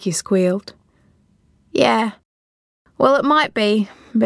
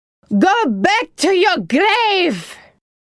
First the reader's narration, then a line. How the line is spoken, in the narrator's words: Yaya yelled, full of venom, her eyes wild with fear